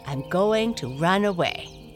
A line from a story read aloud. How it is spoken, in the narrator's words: answered Blackie